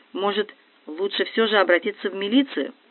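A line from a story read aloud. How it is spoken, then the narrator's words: Timid. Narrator (Russian): свекровь робко говорит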